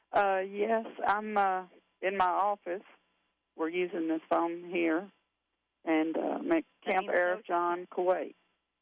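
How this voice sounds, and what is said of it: Tennessee Southern accent. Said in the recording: “Lebanon, Tennessee ... We thought we recognized that accent.”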